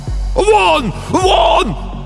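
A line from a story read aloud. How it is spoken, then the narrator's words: Shouting. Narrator (Russian): кричал писатель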